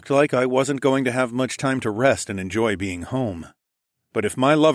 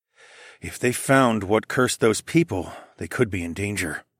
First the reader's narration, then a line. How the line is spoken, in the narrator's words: I murmured